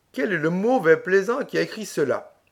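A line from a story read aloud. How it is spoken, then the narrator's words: Laughing. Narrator (French): dit en riant Triféra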